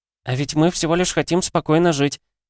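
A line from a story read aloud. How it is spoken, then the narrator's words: Squeak. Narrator (Russian): пропищала Энола, прижимаясь ко мне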